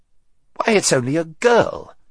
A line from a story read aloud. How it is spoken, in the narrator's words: he exclaimed